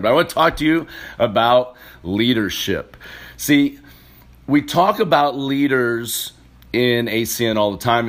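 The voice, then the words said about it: Slightly raspy voice. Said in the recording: “My voice is a little raspy. ... I was doing a lot of yelling on Saturday ... So I apologize about the voice”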